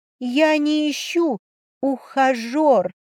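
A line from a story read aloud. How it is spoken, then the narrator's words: Trembling mutter. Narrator (Russian): Дрожащим голосом пробормотала я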